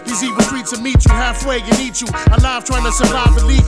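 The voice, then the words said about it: Bronx New York accent. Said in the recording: “It's the Bronx, of course. Recognize the accent.”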